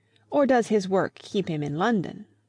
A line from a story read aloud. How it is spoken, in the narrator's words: said Miss Teresa, the more acute and less kindly of the two sisters